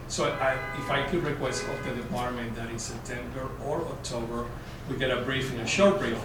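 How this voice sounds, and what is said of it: Speaks with a noticeable accent. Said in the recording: “it's my accent. You don't understand what I'm saying.”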